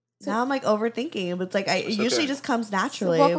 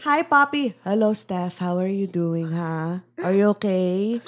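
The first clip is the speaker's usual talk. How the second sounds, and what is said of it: Put-on thick Filipino accent. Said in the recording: “my thick Filipino accent ... let me hear your Filipino accent ... I feel like I have to channel my dad”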